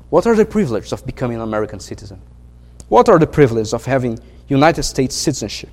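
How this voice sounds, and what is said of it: Brazilian accent in English. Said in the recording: “As you can tell by my accent, I'm not American ... I'm Brazilian”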